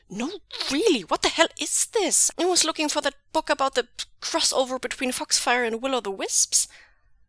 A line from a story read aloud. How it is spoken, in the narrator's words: Jingyi snaps